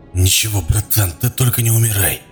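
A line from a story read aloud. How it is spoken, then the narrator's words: Through gritted teeth. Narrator (Russian): процедил сквозь зубы Клоп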